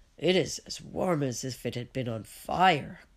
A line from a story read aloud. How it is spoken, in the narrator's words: grumbles Peter